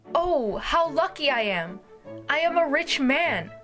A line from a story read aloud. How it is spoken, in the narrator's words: the farmer shouted as he danced in joy